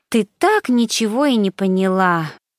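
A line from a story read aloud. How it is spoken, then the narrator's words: Sighing. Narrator (Russian): вздохнула Мишель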